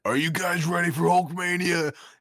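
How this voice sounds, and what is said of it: Imitates a wrestler's voice. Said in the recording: “did a Macho Man impression”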